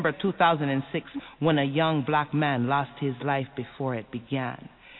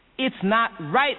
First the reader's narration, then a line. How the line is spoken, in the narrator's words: they shouted